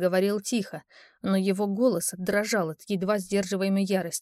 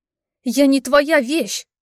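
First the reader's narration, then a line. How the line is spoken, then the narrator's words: Shouted in someone's face. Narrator (Russian): прокричала я ему в лицо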